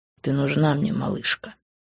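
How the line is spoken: Quiet. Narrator (Russian): тихо сказал он

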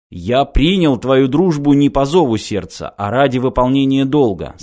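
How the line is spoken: Plain. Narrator (Russian): сказал Геддер

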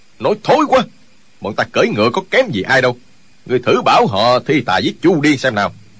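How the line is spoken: Angry voice. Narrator (Vietnamese): Chu Điên giận dữ nói

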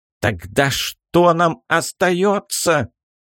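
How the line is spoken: Near shout. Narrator (Russian): чуть ли не закричал Мураш

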